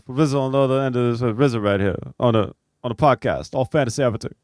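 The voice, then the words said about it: Impression of RZA. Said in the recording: “RZA's right over here doing an impression of himself ... It sounds more like RZA than you guys give it credit for”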